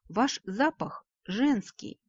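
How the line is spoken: Gentle, as to child. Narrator (Russian): мягко, словно ребенку, начал объяснять Кейси

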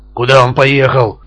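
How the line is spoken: Growling. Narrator (Russian): рычал Шварц

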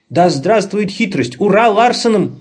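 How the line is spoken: Shouting. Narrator (Russian): закричал Лабан

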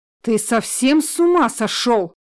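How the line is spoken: Grey-haired man shouting. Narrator (Russian): кричал седой человек

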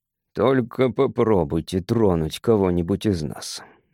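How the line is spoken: Monotone voice. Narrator (Russian): монотонным голосом произнес он

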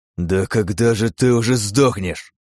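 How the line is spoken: Exhaled through teeth. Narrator (Russian): выдохнул Миша сквозь зубы

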